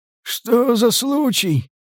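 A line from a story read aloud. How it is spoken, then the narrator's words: Hoarse distrustful question. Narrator (Russian): спросил сиплый, недоверчиво прищурившись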